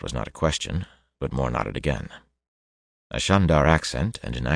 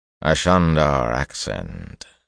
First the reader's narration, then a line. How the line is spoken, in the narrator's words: Kareed said in a flat voice